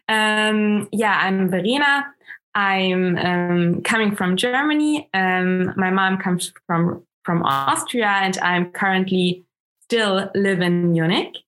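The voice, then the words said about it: German accent in English. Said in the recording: “My mother tongue is German, so I have a little bit of an accent ... lovely accent”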